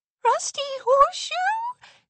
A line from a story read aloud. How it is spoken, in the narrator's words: squeaked